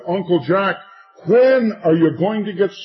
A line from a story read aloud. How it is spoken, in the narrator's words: I shouted again in his ear, I said